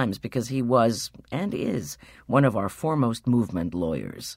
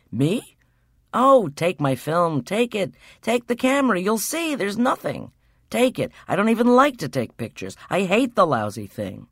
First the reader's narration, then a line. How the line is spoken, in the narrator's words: he cried